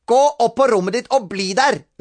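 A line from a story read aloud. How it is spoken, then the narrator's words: Shouted. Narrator (Norwegian): ropte mamma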